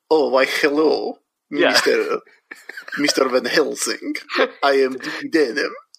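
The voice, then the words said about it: Christopher Lee doing Bela Lugosi impression. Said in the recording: “extremely clearly Christopher Lee doing a voice ... doing a Bela Lugosi impression”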